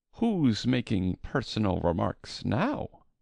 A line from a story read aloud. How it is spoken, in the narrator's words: the Hatter asked triumphantly